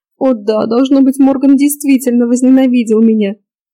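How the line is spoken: Breathless between sobs. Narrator (Russian): В перерывах между рыданиями выдохнула Клариса

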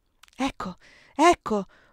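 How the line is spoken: Whispered. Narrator (Italian): sussurrò allora Erika

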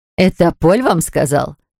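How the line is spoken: Laughing. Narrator (Russian): засмеялась та

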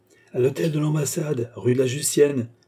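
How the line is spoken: Shouting. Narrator (French): cria Beausire

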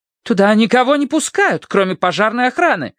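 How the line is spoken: Indignant declaration. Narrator (Russian): заявила она возмущенно

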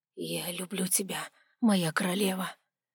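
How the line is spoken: Choked whisper. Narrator (Russian): прошептал он сдавленно

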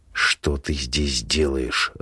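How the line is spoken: Growl through teeth. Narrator (Russian): рычит сквозь зубы

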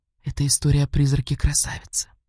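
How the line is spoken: Conspiratorial breathy whisper. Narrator (Russian): она, заговорчески понизив голос, едва слышно с придыханием произнесла

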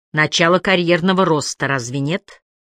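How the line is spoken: Snort. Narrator (Russian): Холм фыркнул

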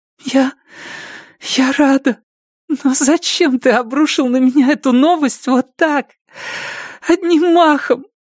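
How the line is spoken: Sobbing. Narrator (Russian): всхлипнула Робин

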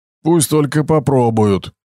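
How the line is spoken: Snorting. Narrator (Russian): Хмыкнул Басти

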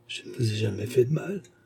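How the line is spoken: Murmured. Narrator (French): murmura-t-elle

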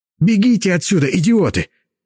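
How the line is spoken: Sudden altered bark. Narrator (Russian): рявкнул вдруг не своим голосом Василь

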